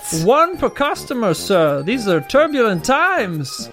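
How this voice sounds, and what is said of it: Salesman voice. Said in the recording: “put on the salesman voice”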